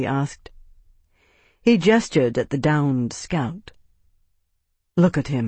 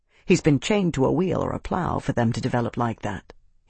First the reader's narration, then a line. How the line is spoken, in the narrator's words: he said quietly